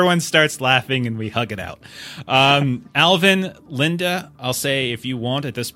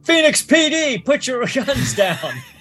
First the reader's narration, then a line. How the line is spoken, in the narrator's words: Alvin, Kyoti yells out